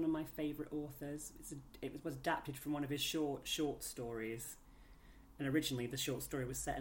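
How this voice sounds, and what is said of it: Usual voice. Nothing is said of it.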